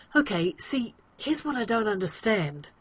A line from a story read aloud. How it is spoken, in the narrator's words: he blurts